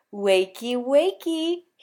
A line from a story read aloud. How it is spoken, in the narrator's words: he says chirpily